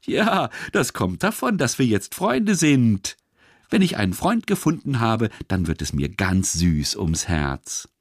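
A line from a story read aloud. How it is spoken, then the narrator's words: Laughing speech. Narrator (German): lachte die gelbe Zitrone und sagte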